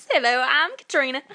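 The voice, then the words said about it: Put-on Southern country accent. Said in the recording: “doing a country voice, a southern voice”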